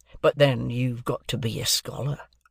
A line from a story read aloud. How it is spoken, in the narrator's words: said he dryly